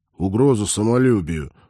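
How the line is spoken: Grumbling, giving in. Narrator (Russian): проворчал Олег, сдаваясь

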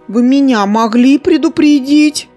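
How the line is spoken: Sobbing woman. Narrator (Russian): всхлипнула вожатая

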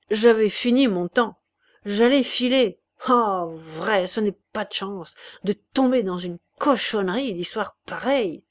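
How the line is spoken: Grumbled. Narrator (French): grogna Chouteau

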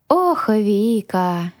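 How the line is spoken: Sighing. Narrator (Russian): вздохнул Грю

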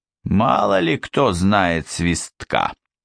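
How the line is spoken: Grumbling. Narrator (Russian): проворчал Бородатый

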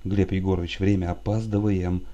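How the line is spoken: Mutter. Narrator (Russian): бормотал он

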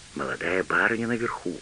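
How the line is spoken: Whispered reply. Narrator (Russian): зашептал в ответ Элиас

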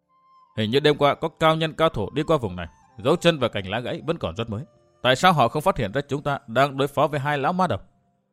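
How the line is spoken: Startled soft mutter. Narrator (Vietnamese): Ngọc Cố Hàn giật mình một cái, lẩm bẩm nói khẽ

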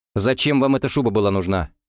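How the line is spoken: Snapped sharply. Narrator (Russian): резко бросил Гуров

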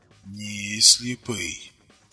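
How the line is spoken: Quiet, tense, slow voice. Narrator (Russian): Тихим напряженным голосом медленно проговорил Тарас

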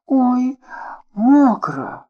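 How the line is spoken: Exclaiming. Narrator (Russian): воскликнула она

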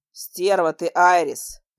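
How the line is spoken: Growled. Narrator (Russian): прорычал он

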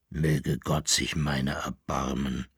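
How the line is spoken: Groan. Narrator (German): stöhnte Koppelbär

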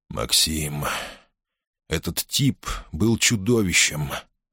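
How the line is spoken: Forced out words. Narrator (Russian): наконец выдавил он

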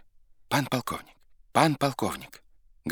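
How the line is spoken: Hurried breathless urgent voice. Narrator (Russian): говорил жид поспешным и прерывистым голосом, как будто бы хотел объявить дело не совсем пустое

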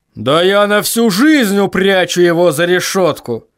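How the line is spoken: Growled. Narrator (Russian): прорычал Ваймс

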